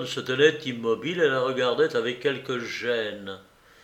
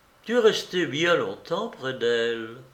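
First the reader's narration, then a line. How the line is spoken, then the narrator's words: Sadder. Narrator (French): Et elle ajouta plus tristement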